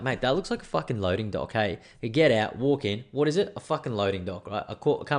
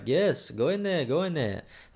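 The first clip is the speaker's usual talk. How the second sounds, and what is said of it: Imitates a man's accented voice. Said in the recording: “he had an accent”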